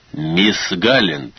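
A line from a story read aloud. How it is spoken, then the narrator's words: Booming voice. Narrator (Russian): прогремел голос Вулфа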